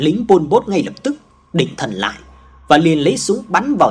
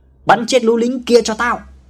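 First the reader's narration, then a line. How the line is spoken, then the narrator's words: Commander's sudden shout. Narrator (Vietnamese): tên chỉ huy Pol Pot bỗng hét lên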